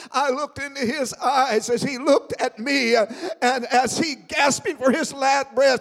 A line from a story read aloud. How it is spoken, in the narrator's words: he cried